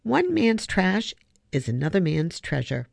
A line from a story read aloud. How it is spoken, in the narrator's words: Trotter said in a maddeningly calm voice